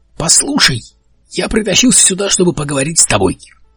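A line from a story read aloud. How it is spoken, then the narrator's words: Barked. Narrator (Russian): рявкнул Бартоломью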